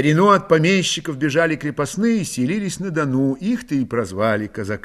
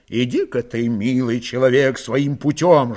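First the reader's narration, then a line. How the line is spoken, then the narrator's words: Restrained angry advice. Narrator (Russian): сдержанно злобно посоветовал Алексей Безрукий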